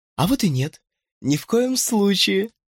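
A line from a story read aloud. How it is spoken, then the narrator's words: Giggling. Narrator (Russian): хихикнула Клэр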